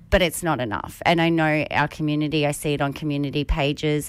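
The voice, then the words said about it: Congested, sick-sounding voice. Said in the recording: “I've got a little bit of a cold ... I can tell in your voice.”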